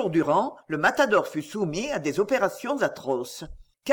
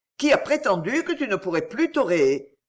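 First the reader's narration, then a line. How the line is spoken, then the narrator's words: Cheerful exclamation. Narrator (French): s'écria-t-il gaiement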